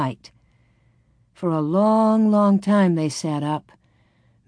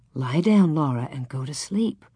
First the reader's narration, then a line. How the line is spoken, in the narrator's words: Ma said gently